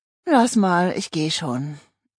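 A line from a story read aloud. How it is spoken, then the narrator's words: Sighing reply. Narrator (German): erwiderte Luise seufzend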